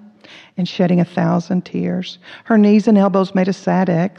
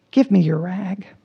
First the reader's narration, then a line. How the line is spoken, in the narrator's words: he said gently